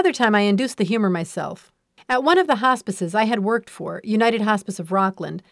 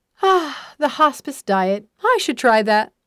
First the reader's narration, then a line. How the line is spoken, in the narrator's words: team members on the heavy side will sigh and wistfully say